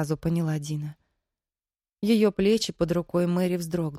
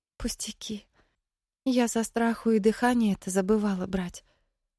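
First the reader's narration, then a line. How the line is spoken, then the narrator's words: Sighing. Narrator (Russian): Мэри вздохнула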